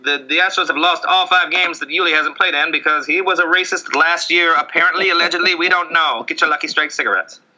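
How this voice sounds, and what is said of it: Old-timey 1920s character voice. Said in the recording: “It's me, the 1920s guy ... I don't know why I did that voice for that.”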